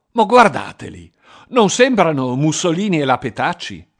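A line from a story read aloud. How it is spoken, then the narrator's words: Exclaimed. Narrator (Italian): Guarnieri aveva esclamato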